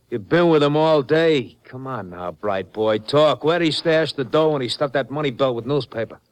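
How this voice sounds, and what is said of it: Brooklyn accent. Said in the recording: “I've been betrayed by a Brooklyn accent.”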